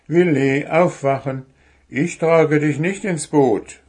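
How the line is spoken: Call. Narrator (German): rief Puh

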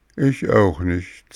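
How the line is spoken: Sad old man. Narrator (German): sagte traurig der alte Vater

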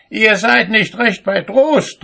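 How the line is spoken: Shouting. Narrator (German): rief er

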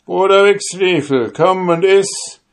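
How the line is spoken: Called out. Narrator (German): rief er dem Jäger zu

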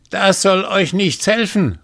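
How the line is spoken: Calling out. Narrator (German): rief sie

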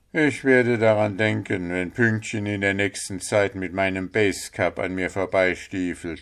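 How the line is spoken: Sigh. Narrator (German): seufzte Puh

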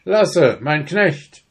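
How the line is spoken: Called out. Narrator (German): Gleich rief er

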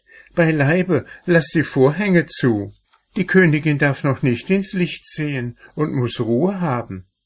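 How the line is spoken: Old woman calling quickly. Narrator (German): rief die Alte geschwind

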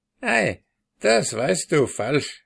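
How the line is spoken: Woman laughing. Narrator (German): lachte das Weib

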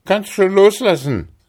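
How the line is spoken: Man calling to giant. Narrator (German): rief er dem Riesen zu

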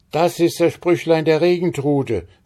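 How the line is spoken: Woman calling out. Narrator (German): rief Frau Stine

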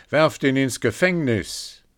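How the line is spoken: Angry shout. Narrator (German): Er ward zornig darüber und rief

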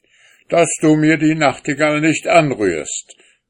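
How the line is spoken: Angry man shouting. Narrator (German): rief der Mann wütend

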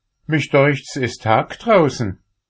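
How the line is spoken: Calling from inside oven. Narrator (German): rief's im Ofen

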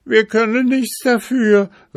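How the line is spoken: Foals crying in pain. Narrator (German): riefen die Fohlen und schrien vor Schmerz

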